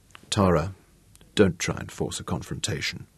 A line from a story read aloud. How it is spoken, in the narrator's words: said softly